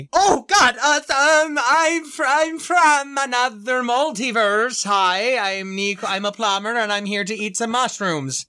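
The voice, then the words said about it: Unconvincing put-on Italian accent. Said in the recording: “you're going for an Italian accent. I thought it was Swedish ... I was trying to be the forgotten Mario brother, and I see that that did not work out”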